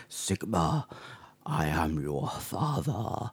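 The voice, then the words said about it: Darth Vader impression. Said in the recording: “with my cold, I could do a Darth Vader impression.”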